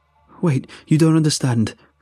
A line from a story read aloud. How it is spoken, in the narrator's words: I pleaded